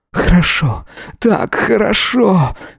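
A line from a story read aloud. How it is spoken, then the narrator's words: Whining. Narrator (Russian): скулил он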